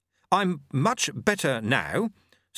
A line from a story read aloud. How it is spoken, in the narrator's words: said Jeremy stiffly